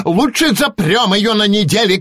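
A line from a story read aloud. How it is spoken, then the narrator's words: Shouting witch. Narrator (Russian): крикнула травяная ведьма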